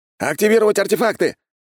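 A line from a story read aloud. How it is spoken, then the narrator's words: Shout. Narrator (Russian): крикнул другой маг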